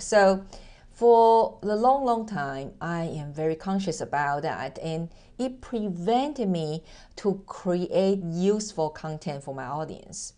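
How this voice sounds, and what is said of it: Mixed Taiwanese-accented English. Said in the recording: “As you can hear that I am originally from Taiwan, I'm Asian, and through the 18 years of relocation, my accent totally mess up. It's like a mixture of American, British English, plus German and Japanese and Mandarin”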